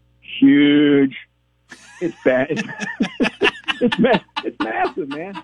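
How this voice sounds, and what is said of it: Imitates another person's voice. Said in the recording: “my best Donald Trump impersonation”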